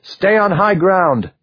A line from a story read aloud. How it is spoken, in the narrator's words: he shouted